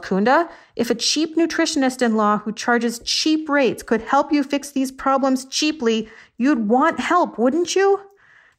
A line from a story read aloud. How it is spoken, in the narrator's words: I yelled